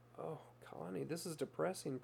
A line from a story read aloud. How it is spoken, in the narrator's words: Princess said sadly